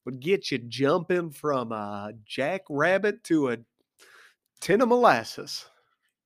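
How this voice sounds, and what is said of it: Theo Von impression. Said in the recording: “my Theo Vaughn impression”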